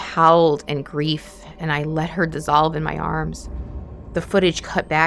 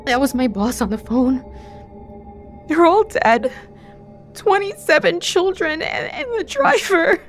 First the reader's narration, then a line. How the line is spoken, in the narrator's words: In between racking sobs, she told me